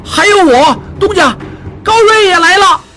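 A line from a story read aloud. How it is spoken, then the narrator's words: Shout. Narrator (Chinese): 高瑞 喊道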